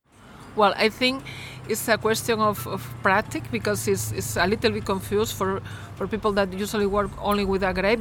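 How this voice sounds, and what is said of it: Spanish accent in English. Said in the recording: “originally from Galicia in Spain, actually, which you might be able to tell from her accent, her lovely accent”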